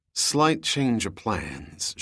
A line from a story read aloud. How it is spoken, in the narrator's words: she muttered to the uncomprehending helmsman